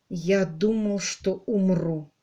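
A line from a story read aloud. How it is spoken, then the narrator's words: Quiet. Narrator (Russian): сказал он тихо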